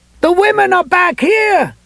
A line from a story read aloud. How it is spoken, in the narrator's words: he yelled, now having to fight a need to cough himself